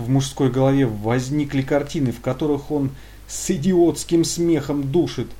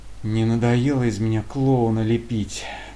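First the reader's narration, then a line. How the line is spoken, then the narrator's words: Tired cursing. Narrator (Russian): Алексей устало чертыхнулся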